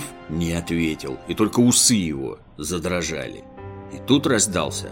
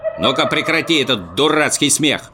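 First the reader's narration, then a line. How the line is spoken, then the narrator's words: Stern shout. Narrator (Russian): строго прикрикнул Муми-тролль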